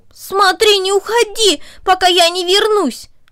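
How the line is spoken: Shouted. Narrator (Russian): он крикнул Корнели

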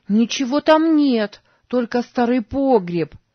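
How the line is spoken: Shouted after someone. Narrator (Russian): крикнула ему вслед Сара

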